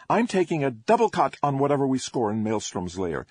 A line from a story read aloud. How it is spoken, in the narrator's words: Sparks said brightly